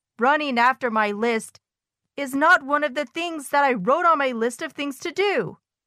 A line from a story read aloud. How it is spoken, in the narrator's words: wailed Toad